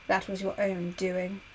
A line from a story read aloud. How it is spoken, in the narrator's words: Aeneas muttered